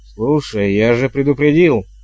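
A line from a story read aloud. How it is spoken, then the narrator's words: Guard's growl. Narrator (Russian): зарычал стражник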